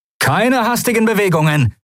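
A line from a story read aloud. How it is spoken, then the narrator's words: Calling out. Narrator (German): rief er den Weißmänteln zu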